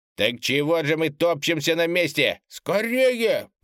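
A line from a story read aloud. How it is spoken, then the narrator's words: Shouted. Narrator (Russian): прокричал хранитель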